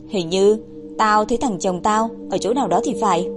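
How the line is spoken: Woman muttering. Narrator (Vietnamese): các nữ tù nhân, thì túm mớ tóc của mình nên lẩm bẩm

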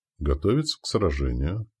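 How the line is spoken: Quiet. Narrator (Russian): произнес негромко Святозар

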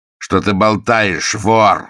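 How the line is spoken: Angry shout. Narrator (Russian): закричал Мержи, разозленный тем сильнее, чем больше он сознавал справедливость упрека

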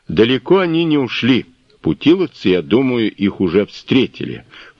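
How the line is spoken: Booming drone. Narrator (Russian): прогудел Ной

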